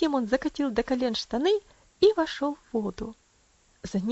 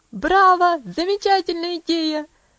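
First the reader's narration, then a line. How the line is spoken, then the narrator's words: Excited shout. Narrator (Russian): закричал Хэролд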